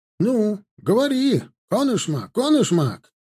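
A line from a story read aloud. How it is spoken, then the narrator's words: Barking. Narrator (Russian): рявкнул Блохин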